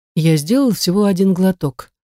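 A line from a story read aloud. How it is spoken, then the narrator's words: Calm reply. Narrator (Russian): спокойно отвечаю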